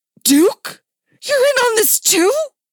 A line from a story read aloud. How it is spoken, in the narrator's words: Dick gasped